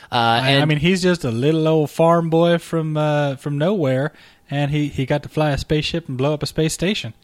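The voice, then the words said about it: Put-on space farmer accent. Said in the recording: “That was an interesting accent you affected there ... That's my space farmer accent”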